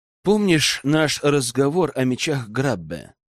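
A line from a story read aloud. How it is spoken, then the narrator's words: Quiet. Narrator (Russian): Тихо проговорил Рэм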